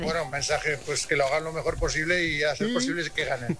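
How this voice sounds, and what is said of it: Imitated voice with Aragonese accent. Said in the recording (Spanish): “me ha salido acento mañito... Pero mucho, bastante”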